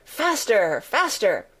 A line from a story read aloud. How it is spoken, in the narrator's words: still the Queen cried